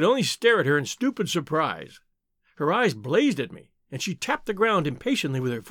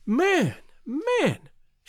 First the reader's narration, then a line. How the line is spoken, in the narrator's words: cried